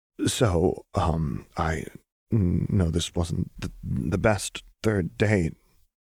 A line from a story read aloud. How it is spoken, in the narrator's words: Lux said shakily, Lux had been crying